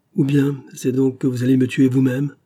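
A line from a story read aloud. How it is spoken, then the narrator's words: Wretched moan. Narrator (French): gémit alors le malheureux, dont les regards éperdus se fixaient sur le revolver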